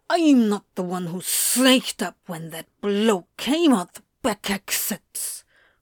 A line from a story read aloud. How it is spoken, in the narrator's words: Crowley hissed back